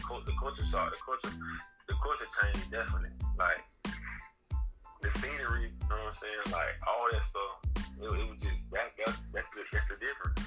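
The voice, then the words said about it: Strong regional accent. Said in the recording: “my accent strong anyway, so I can't, like, talk how you. Talk, I gotta slow it down”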